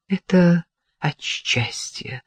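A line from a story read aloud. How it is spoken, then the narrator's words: Muttered. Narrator (Russian): пробормотала Кира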